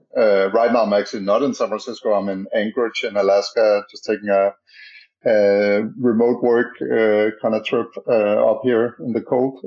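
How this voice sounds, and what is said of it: Danish accent. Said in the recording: “as you can maybe hear by my strange accent, I'm from Denmark originally”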